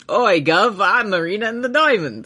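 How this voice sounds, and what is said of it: Exaggerated put-on English accent. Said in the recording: “us doing an English accent”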